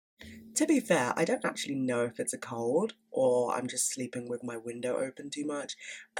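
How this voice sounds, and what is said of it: Stuffy, congested voice. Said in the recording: “tell by my voice, but I'm a bit stuffy. I've had a bit of a cold ... I sound bunged up and ill”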